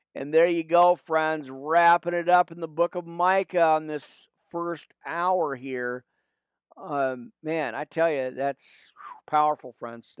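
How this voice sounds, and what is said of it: Hoarse, fading voice. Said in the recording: “You can tell I'm kind of losing my voice there. It happens, you know, with the weather change”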